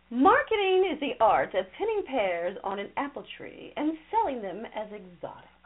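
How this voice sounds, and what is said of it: Put-on English accent. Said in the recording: “I like an English accent. ... Yeah. You do that so well, right?”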